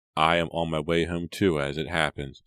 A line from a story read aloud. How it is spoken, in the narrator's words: said Jonathan